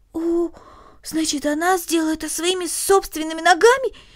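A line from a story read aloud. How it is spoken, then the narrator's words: Exclaiming. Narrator (Russian): воскликнула Корнелли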